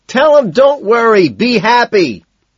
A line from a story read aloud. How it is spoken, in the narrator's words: Owen shouts